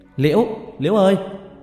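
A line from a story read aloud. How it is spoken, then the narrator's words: Shout. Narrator (Vietnamese): tôi hét lên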